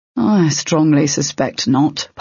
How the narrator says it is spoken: Pyvik said, sighing

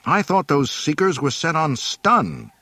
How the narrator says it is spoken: he exclaimed angrily

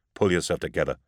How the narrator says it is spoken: snapped

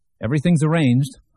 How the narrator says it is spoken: Herb said cheerfully

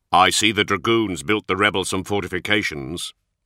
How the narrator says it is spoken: Cole grumbled

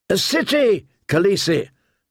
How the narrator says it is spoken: they cried

